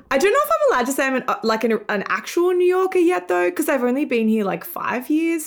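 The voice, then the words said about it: Australian accent. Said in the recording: “in Australia, where I'm from, hence my weird accent ... Great accent.”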